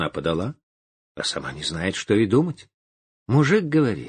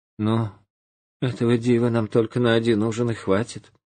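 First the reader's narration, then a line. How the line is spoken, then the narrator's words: Sighing wife. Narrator (Russian): жена на гуся, вздохнула и говорит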